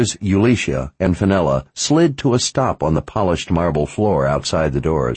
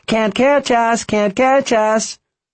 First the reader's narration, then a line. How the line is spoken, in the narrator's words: The boys with a squeal shouting taunts of